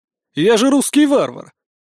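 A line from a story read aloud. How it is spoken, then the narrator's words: Short laugh. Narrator (Russian): хохотнул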